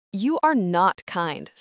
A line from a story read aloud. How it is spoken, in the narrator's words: Sarah says fiercely